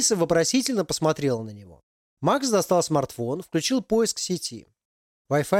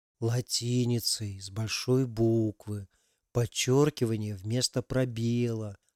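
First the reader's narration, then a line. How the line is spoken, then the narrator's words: Quiet, drawn-out, rhythmic. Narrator (Russian): растягивая слова в ритме игры на глюкофоне, тихо проговорил парень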